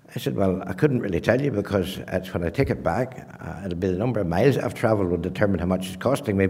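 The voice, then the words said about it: Northern Irish accent. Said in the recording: “I'm from Northern Ireland. Oh, he said, I would determine that from your accent.”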